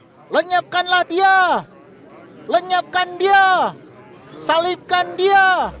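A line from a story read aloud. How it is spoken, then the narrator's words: Crowd shouting. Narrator (Indonesian): Lalu mereka berteriak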